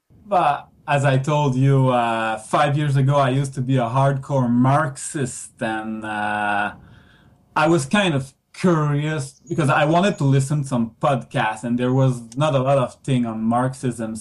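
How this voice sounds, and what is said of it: French Canadian accent. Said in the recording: “I'm in the French part of Canada called Quebec ... my listeners can get a feel for that accent if they're unfamiliar”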